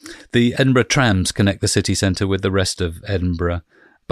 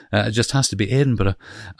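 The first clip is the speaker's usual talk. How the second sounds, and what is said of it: Put-on Scottish accent. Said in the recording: “It's hard for me to avoid going into a Scottish accent when, as soon as I say Edinburgh”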